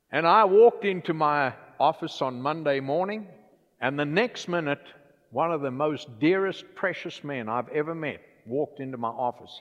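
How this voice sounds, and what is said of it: Louisiana accent. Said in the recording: “my Louisiana accent”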